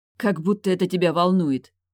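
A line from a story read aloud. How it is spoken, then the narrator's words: Snapping retort. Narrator (Russian): огрызнулась я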